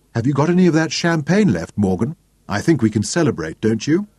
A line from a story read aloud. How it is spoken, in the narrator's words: Deborah asked brightly